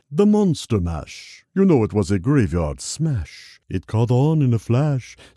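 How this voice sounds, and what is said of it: Boris Karloff impression while singing. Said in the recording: “doing an impression of Boris Karloff, a horror icon from Universal Studios”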